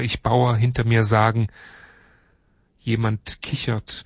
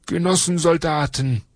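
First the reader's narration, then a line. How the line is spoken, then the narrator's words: Calling out. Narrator (German): ruft er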